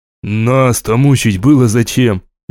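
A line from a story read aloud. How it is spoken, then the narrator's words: Hollow, muffled voice. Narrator (Russian): глухо произнес Еремеев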